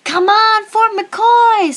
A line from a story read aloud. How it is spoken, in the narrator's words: screamed